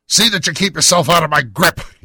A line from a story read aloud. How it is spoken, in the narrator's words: he snarled